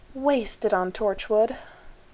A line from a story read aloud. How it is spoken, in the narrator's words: Rodney said mournfully